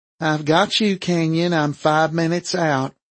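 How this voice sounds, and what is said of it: Female voice with Southern accent. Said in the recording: “a female voice with a southern accent that was discernible even over the scratchy radio signal”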